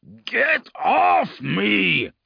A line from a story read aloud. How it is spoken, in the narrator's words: He roared, trying to break away